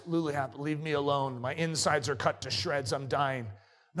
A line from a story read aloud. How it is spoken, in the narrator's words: He gasped